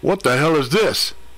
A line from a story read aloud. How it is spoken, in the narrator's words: He bellowed